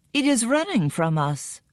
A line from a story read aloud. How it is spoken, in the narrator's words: cried Ahu